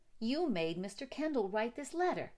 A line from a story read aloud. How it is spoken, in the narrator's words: she said